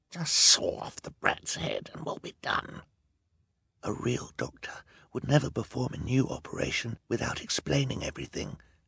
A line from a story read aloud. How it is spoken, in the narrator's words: Klaus whispered back